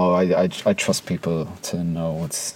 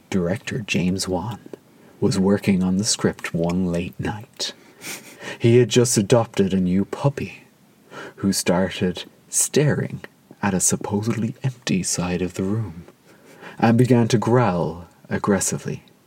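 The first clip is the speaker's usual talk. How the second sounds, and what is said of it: Creepy storytelling voice. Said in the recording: “I'm going to do a creepy voice for this”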